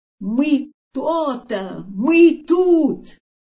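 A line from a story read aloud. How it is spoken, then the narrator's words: Shouting. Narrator (Russian): все кто-то кричали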